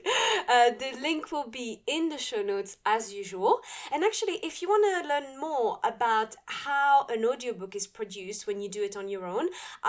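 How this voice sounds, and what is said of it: Speaker's own accent. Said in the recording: “you can hear my accent and everything that I mispronounce”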